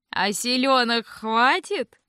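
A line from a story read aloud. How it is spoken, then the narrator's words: Snide smirk. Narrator (Russian): Ехидно усмехнулся тот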